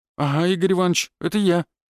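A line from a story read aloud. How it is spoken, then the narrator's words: Sparrow's frightened mumble. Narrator (Russian): испуганно промямлил воробей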